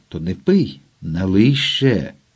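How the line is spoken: Drunken voice. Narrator (Ukrainian): Вона вже говорила сп'янілим голосом

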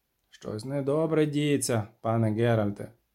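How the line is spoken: Grumbling. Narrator (Ukrainian): буркнув

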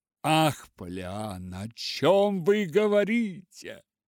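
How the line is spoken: Exclamation. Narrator (Russian): воскликнул мистер Пендлтон

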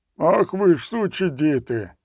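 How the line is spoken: Sudden bellowing bull voice. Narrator (Ukrainian): Гарикнув раптом цілком несподівано пастельний бургомістр, бичачим голосом, аж ніяк не відповідним статурі

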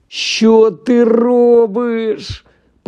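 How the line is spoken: Groaning, ashen-faced. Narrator (Ukrainian): простогнав посірілий Рон

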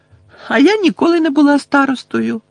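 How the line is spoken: Cheerful. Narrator (Ukrainian): весело розповідала Тонкс

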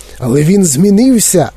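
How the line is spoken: Old man exclaiming. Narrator (Ukrainian): вигукнув дідунь Джо

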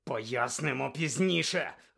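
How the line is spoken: Barked. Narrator (Ukrainian): гаркнув Блек

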